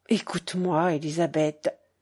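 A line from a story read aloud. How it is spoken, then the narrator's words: Low voice, mother. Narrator (French): reprit la mère à voix basse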